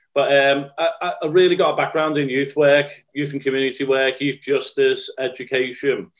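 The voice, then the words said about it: Scouse Liverpool accent. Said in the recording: “It is a Scouse accent for your listeners from Liverpool.”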